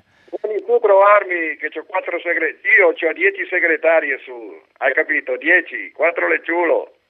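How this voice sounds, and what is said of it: Put-on Brianzolo dialect. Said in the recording (Italian): “com'era in milanese invece? ... In milanese in Brianzolo. ... In Brianzolo, sì, in Brianzolo, sì. Che è più forte in Brianzolo, fammelo in Brianzolo, dai, che è più forte l'originale.”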